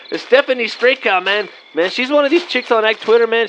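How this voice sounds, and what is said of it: Put-on accent. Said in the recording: “Almost lost my accent there, Vato.”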